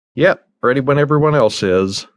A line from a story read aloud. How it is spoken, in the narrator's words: Mark replied